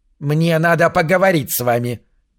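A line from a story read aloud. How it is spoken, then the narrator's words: Clear piercing voice. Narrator (Russian): объявила она ясным и пронзительным голосом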